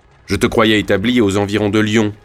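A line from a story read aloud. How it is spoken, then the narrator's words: Plain. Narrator (French): dit Falcoz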